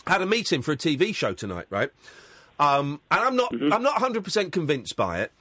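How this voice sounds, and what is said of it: Croaky, throaty voice. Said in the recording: “I've got a frog in my throat.”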